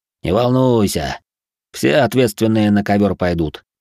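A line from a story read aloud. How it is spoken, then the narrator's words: Guard snorting. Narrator (Russian): хмыкнул стражник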